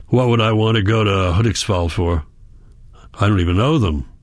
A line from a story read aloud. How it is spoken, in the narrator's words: he grunts